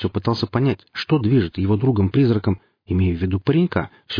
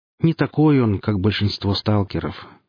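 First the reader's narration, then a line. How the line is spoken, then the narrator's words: Sad. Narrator (Russian): как-то грустно произнесла фигура в плаще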